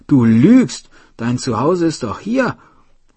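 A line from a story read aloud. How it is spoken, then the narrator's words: Shout. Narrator (German): rief Juni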